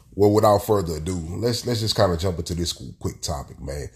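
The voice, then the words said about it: Stuffy, congested voice. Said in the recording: “as y'all can hear in my voice. I'm sounding a little stuffy. You might hear some coughing.”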